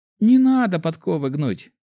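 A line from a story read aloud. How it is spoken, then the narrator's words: Giggle breaking with emotion. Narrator (Russian): хихикнула девушка, но голос ее оборвался из-за поднявшегося из груди сильного чувства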